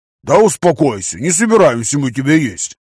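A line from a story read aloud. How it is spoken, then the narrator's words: Deep booming voice. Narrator (Russian): пробасил Вася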